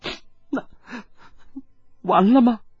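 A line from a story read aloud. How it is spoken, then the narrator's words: Sobbing. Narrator (Chinese): 一鸣抽泣道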